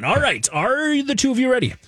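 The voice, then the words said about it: Pirate-like voice. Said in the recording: “I don't know why I sounded like a pirate there”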